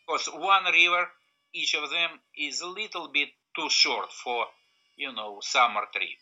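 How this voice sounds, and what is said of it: Thick Russian accent. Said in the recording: “the guy with the thick Russian accent”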